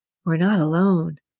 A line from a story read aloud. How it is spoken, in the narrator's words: whispered, doing his best to keep his lips from moving